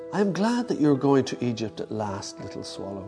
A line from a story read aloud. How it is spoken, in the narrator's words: said the prince